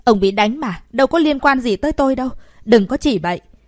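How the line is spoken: Loud shout. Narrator (Vietnamese): cô ta quát lớn

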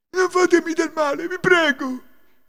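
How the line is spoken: Hunchback pleading fearfully. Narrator (Italian): supplicò il gobbo

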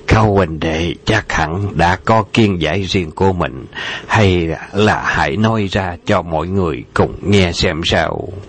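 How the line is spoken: Smiling. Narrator (Vietnamese): Khả Phong đạo nhân mỉm cười nói

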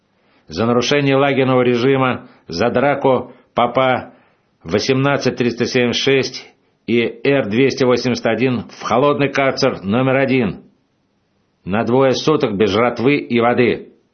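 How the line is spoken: Shouting. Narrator (Russian): крикнул начальник

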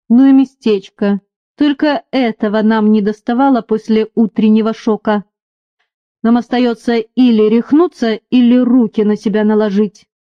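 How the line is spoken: Gloomy remark. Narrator (Russian): Уильям не выдержал и мрачно заметил

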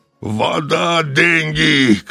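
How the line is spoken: Shouting. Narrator (Russian): кричал толстяк

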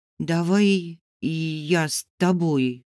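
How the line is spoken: Timid suggestion. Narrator (Russian): робко предложила Соня

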